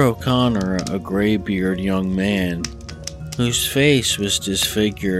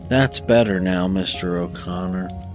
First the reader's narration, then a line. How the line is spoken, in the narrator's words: sighed, and said